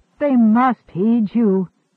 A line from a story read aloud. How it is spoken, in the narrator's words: Three Geese groaned